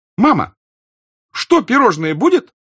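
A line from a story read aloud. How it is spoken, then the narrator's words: Bold, playfully capricious child shout. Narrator (Russian): закричала Наташа уже смело и капризно весело, вперед уверенная, что выходка ее будет принята хорошо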